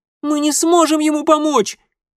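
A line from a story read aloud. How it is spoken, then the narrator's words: Resisting girl squeaking. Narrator (Russian): пискнула упирающаяся девчонка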